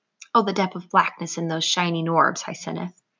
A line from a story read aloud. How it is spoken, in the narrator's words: murmured